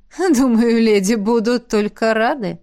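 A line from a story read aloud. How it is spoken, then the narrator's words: Giggled. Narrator (Russian): хихикнула ректор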